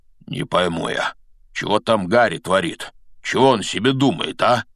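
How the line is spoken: Muttering. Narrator (Russian): бормотал Хагрид

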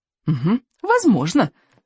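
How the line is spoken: Squeak. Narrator (Russian): пискнул Рыбинок

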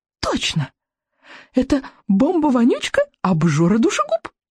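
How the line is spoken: Delighted exclamation. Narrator (Russian): воскликнула дракониха восторженно

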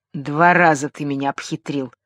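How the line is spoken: Growling. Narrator (Russian): прорычал Богарт

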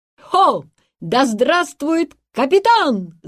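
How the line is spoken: Crowd shouting. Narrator (Russian): закричали они

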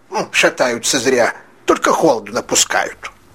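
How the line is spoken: Angry shout. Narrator (Russian): Парикмахер сердито обернулся, и крикнул им вдогонку

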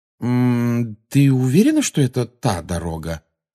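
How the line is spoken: Meaningful questioning tone. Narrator (Russian): спросил он ее многозначительным тоном

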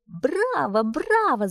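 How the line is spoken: Shout. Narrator (Russian): закричала Мю

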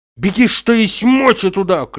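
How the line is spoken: Shouting after someone. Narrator (Russian): кричал он ей вслед

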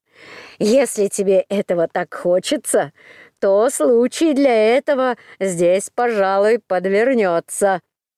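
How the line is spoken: Laughing innkeeper. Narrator (Russian): хозяин харчевни, засмеялся и сказал

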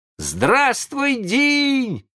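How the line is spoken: Surprised boys shouting. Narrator (Russian): закричали удивленные мальчишки

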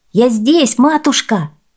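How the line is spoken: Shouting. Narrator (Russian): закричал Хуанита

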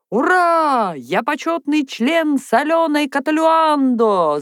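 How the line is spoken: Shouted. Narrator (Russian): закричал Вася

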